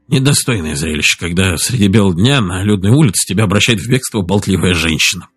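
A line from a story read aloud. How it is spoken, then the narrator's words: Muttered grumble. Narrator (Russian): проворчал он себе под нос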